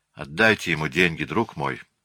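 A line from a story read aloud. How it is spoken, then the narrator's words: Flat colorless voice. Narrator (Russian): сказала она бесцветным голосом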